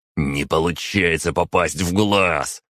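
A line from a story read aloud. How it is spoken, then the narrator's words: Growled. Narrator (Russian): прорычал Костя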